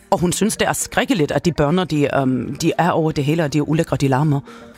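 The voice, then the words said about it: Put-on accent for Dina von Fürst. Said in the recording (Danish): “de der accent? ... Dina von Fürst, hun taler sådan her.”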